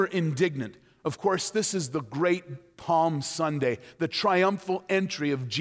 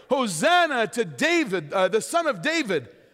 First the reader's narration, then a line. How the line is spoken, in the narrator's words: the children shouting in the temple area